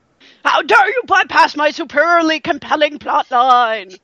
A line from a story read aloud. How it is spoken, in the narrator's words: Mado bellowed